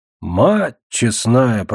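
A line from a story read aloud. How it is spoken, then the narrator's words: Muttering. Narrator (Russian): пробормотал Лебедь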